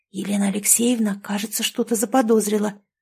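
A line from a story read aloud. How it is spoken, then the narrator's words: Whispered. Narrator (Russian): снова прошептала Маруся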